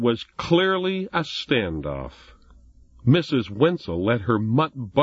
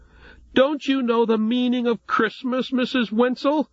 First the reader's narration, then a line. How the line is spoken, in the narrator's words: exclaimed Jesse in one last burst of frustration